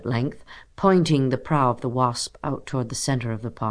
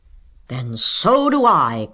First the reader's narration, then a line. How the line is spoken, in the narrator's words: cried Stuart loyally